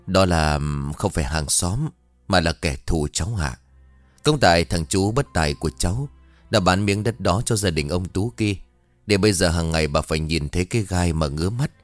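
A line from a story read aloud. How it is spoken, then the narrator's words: Sad, sighing. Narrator (Vietnamese): Bà ánh mắt buồn, thở dài rồi bảo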